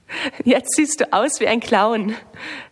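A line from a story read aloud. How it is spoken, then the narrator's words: Laughing. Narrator (German): lacht Lisa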